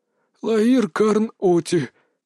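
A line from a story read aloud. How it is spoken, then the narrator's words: Glum sigh. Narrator (Russian): все с тем же унылым видом вздохнул сторож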